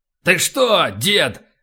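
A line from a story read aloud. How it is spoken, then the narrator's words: Barked. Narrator (Russian): рявкнул полубой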